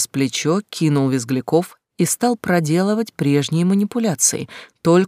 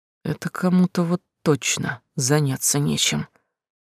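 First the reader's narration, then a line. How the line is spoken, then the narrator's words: Muttering. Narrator (Russian): пробормотал следователь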